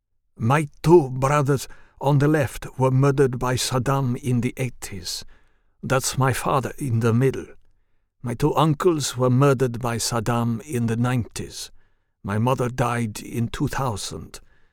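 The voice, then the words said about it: Thick foreign accent. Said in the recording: “He spoke with a thick accent.”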